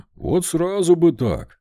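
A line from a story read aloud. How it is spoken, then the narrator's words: Happy. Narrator (Russian): радостно ответил Вольт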